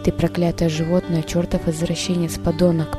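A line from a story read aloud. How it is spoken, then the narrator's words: Whisper. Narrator (Russian): прошептала Ив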